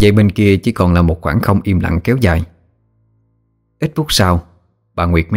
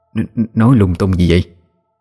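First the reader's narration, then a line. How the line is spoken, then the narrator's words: Stammering. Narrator (Vietnamese): Bà lắp bắp nói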